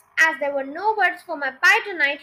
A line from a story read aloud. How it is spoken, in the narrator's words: he shouted